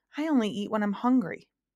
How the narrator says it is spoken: said Milo sadly and softly

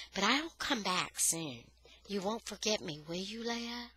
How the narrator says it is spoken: she said gently

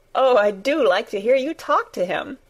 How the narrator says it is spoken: Mary said, laughing delightedly

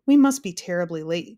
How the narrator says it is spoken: gasped the Earl nervously

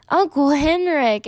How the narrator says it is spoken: Anne Marie shrieked, and then began to laugh

